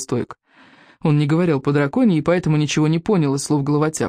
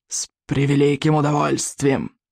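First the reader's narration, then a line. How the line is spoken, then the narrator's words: Hissing. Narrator (Russian): прошипел он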